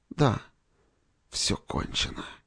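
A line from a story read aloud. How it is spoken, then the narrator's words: Exhausted wounded whisper. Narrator (Russian): прошептал раненый в изнеможении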